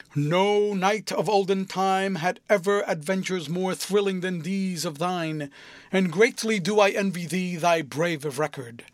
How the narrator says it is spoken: he exclaimed

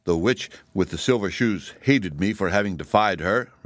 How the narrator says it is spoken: resumed the Emperor, his voice now sounding clear as a bell

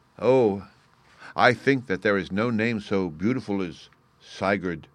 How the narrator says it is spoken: cried

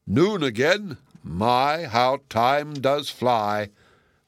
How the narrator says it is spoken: the giant exclaimed

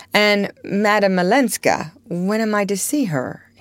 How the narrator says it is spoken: he said

